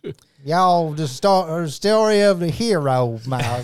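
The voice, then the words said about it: Put-on Arkansas accent. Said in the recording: “say that with an Arkansas accent?”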